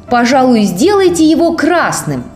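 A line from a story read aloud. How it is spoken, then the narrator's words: Shouting. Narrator (Russian): Тим закричал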